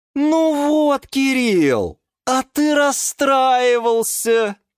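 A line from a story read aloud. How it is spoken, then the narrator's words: Shouted from above. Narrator (Russian): крикнула сверху Лиана Диана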